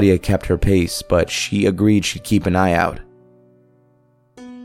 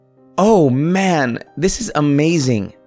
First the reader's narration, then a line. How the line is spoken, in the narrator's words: Claudia exclaimed